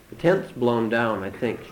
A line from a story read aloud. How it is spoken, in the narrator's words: he says